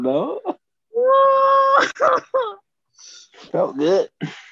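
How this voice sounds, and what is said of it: Usual voice. Nothing is said of it.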